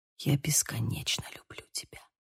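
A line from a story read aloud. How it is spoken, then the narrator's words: Whisper. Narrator (Russian): прошептал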